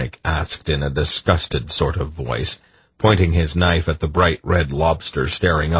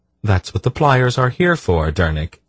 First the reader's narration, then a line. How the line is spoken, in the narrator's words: Polgara explained in a peculiarly mild tone